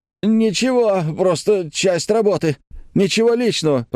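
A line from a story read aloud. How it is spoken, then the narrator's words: Whining. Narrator (Russian): проскулил Клякса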